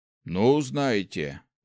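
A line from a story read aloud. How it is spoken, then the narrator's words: Sighing mage. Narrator (Russian): вздохнул маг теней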